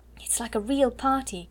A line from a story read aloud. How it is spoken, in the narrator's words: cried Ermengarde